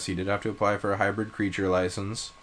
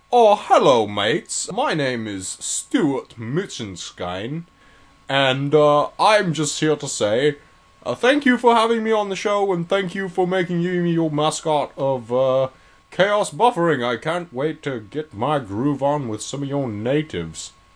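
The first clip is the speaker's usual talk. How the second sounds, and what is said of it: Put-on British accent. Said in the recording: “He should be British. Can you do a British accent? ... Graf Draf should be British.”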